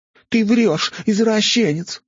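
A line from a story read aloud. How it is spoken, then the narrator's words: Shouting woman. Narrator (Russian): выкрикнула блондинка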